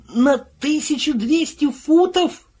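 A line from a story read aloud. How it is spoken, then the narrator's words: Howled. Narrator (Russian): взвыл Пил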